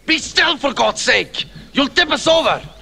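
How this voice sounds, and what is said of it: Very unusual Scottish accent. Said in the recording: “we can properly hear the accent ... that is just a very, very unique Scottish accent”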